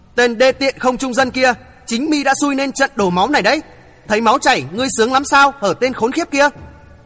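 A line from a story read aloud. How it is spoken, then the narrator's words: Furious shout. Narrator (Vietnamese): Lửa giận bốc lên ngùn ngụt, Thượng Chí quát lớn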